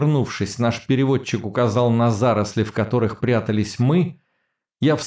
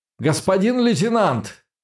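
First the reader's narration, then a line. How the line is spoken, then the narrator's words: Shouting over gunfire. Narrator (Russian): крикнул я, но сам не услышал свой голос в грохоте выстрелов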